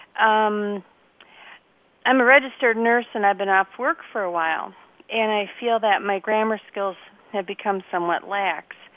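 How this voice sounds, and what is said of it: Wisconsin accent. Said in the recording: “I'm in Wisconsin ... We could have told you by the accent.”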